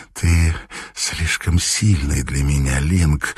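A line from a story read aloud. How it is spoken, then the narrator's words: Hoarse female voice. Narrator (Russian): Голос у нее был хриплый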